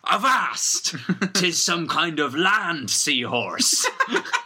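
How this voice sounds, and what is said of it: Pirate voice as Captain Barbossa. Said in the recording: “Captain Barbossa steps in. ... My voice is quite difficult to keep up. I'm going to use my pirate cutlass.”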